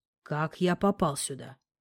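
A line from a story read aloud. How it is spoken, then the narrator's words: Quiet voice. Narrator (Russian): Вопрос, заданный тихим голосом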